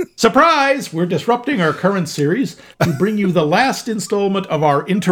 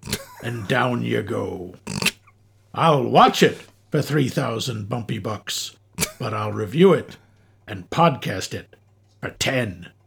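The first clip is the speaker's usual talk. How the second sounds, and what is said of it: Imitates another person's voice. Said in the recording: “That was my flawless Robert Shaw impression ... Captain Squint”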